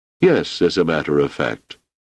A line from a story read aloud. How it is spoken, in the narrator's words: said Amaril